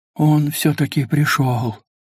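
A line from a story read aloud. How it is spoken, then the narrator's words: Breathed out. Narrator (Russian): выдохнул кто-то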